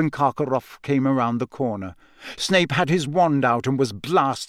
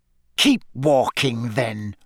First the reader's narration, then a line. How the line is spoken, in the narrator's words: Snape snarled